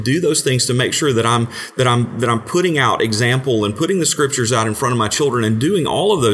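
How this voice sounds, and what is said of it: Usual voice. Nothing is said of it.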